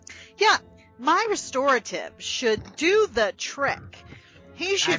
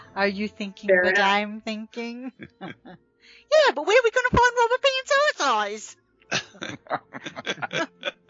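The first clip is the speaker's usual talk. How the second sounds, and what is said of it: Good impression of Pinky. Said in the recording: “Pinky ... a good impression. ... Pinky and the brain.”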